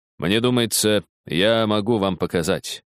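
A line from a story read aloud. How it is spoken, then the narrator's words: Calm. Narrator (Russian): спокойно ответил Холмс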